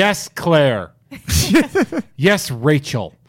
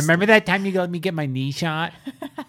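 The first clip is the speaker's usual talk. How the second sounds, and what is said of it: Imitates another person's voice. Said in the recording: “I know you're doing an impression of me”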